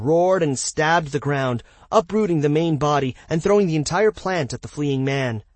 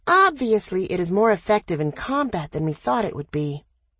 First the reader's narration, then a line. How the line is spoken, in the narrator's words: Danny murmured